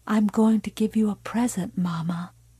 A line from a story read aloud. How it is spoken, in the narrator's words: Carrie said softly